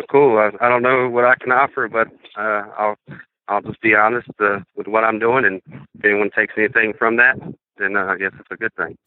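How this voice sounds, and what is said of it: Slight Southern US accent. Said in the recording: “your accent obviously isn't Minnesotan ... if you talk to people up here, I have a southern accent, but if you talk to like family and friends back home, they think I've lost it or almost lost it”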